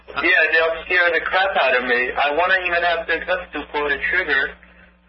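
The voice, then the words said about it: Noticeable accent. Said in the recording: “That's a great accent. ... That is a great accent.”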